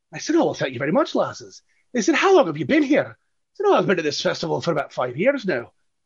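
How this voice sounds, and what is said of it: Put-on Scottish accent. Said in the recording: “I did play a Scottish character ... You're using the accent”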